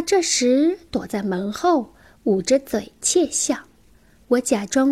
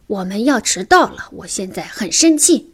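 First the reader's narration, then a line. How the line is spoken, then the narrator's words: Yelling. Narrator (Chinese): 对着楼上吼道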